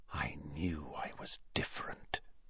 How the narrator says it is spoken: he whispered to his own quivering fingers

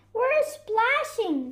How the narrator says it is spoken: they shouted

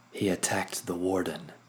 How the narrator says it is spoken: Isolde growled

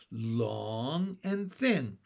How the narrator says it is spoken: said Benny happily

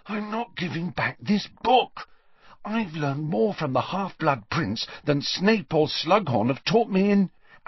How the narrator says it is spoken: said Harry, speaking in a slightly hoarse whisper after three-quarters of an hour of silence

